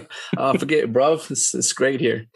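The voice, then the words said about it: Put-on slangy accent. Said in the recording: “we're already starting with the accents... I knew ... was going to do it throughout the episode”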